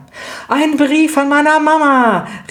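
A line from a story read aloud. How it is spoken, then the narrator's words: Called out. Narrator (German): rief Lydia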